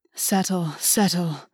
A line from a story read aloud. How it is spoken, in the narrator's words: August breathed